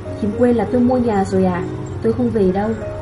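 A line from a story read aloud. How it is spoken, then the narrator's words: Smiling reply. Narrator (Vietnamese): Cô mỉm cười đáp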